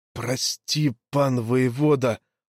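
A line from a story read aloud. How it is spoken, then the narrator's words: Muffled whisper. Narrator (Russian): глухо шептал гайдук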